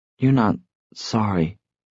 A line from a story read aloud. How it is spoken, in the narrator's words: she said hesitantly